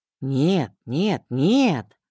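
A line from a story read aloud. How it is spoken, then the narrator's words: Drawn-out words. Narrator (Russian): протянул он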